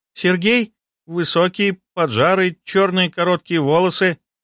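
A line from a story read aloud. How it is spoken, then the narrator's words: Uncertain. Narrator (Russian): Недоуменно посмотрела на меня девушка, а потом неуверенно добавила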